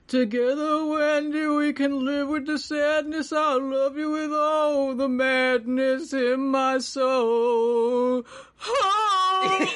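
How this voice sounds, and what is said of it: Strained, dying-sounding singer imitation. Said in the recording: “do my best Springsteen voice ... He sounds like he's dying.”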